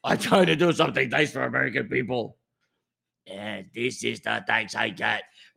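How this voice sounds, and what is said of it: Poor put-on Chinese accent. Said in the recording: “this bad impression of a Chinese person”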